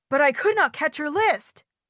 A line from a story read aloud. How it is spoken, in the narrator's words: gasped Frog